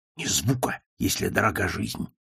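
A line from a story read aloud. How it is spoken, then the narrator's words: Whispered. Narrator (Russian): прошептал Макмерду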